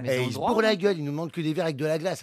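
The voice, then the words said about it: Distinctive voice and regional accent. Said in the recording (French): “Avec cette voix et cet accent.”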